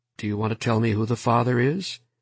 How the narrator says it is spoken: He asked gently

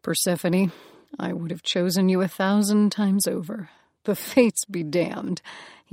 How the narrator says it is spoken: he said, laughing

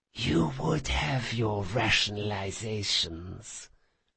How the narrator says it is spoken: she whispered

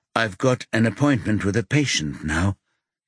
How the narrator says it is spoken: he says quietly

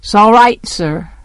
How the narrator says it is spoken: Jem said gruffly

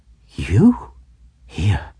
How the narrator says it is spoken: I gasped out

